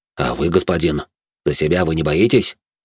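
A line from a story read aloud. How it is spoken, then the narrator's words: Displeased mutter. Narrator (Russian): недовольно пробурчал мой собеседник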